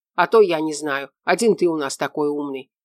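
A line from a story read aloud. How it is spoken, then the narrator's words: Grumbling. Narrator (Russian): проворчал Шура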